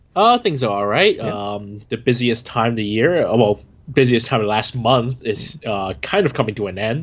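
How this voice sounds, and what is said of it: Congested voice with sniffling. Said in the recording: “I'm hit with bad allergies today, so my voice might be a little weird. You might hear some sniffling here and there.”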